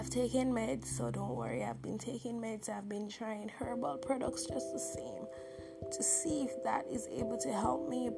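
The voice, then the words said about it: Strained, failing voice. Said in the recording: “my voice went... I didn't have voice for 3 days... it strains my voice. And as you guys can hear”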